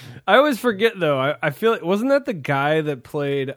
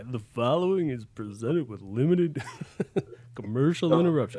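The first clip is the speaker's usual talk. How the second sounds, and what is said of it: Imitates a TV announcer voice. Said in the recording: “my impression of the guy ... That's bad. I think the wine is not making my impression as good tonight”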